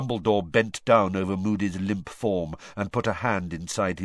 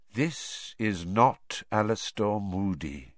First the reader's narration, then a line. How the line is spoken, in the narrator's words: said Dumbledore quietly